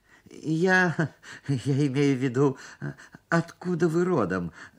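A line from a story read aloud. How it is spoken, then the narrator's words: Stammering. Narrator (Russian): заикался я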